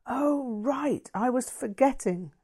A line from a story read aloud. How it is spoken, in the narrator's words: Linda gasped